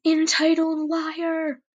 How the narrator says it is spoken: I shouted

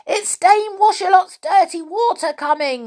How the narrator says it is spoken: yelled Joe

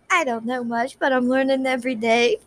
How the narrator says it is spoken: Faye laughed

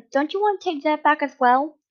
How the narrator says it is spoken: Yoda replied quickly and sincerely

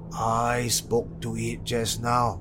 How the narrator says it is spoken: the neighbor replied

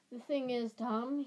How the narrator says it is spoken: he sighed

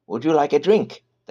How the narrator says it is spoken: the hag offered brightly

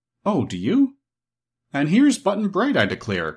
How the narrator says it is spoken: cried Santa Claus

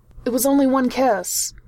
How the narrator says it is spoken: he blurted out

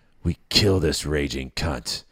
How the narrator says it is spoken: I spat

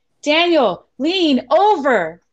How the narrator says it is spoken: As best I could, I yelled back

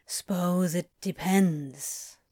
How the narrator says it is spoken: Crowley said, his voice low and pensive

